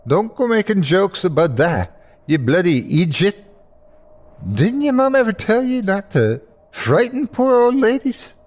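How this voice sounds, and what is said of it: Strong Irish accent. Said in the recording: “her full Irish accent flaring up”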